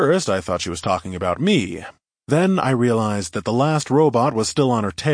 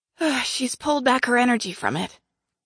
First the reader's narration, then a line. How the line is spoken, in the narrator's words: the woman said, her voice strained